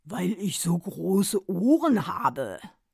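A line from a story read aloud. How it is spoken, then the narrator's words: Deep voice. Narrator (German): Sein Vater sagte dann mit tiefer Stimme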